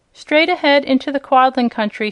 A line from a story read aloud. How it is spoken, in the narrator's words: she answered